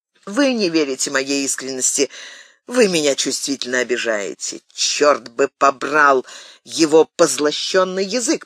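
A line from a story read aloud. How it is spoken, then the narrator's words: Grumbling. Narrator (Russian): проворчал Д'Артаньян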